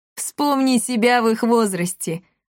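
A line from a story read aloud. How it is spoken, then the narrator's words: Short laugh. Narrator (Russian): хохотнул Дормидонт Эклектий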